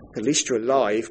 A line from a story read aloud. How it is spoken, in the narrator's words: Craig says